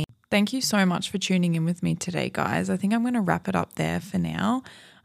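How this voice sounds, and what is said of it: Tired, slightly croaky voice. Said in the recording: “I'm pretty tired. I'm recording this at nighttime, so I feel like my voice is like almost a little bit like croaky”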